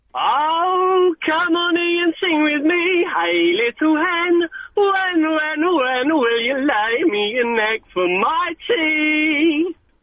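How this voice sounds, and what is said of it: Sung impression of a character voice. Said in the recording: “someone doing an excellent impression of the Little Hen Man”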